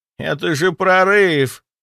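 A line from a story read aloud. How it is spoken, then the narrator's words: Pleading, dead man. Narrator (Russian): взмолился мертвый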